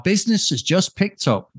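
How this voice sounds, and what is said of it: Poor imitation of another person's accent. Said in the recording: “That's a terrible accent.”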